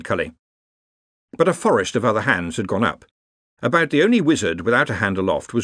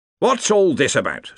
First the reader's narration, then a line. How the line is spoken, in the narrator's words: said the Arch-Chancellor irritably